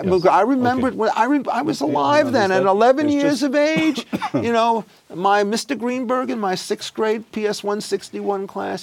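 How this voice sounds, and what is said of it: Brooklyn accent. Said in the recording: “Brooklyn, of course. Can't you tell by the accent?”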